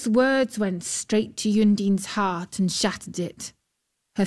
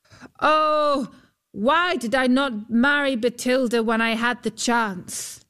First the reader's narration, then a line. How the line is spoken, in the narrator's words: Huldbrand called out